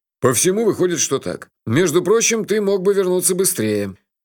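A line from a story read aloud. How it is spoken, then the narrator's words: Grumbling. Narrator (Russian): проворчал Джуфин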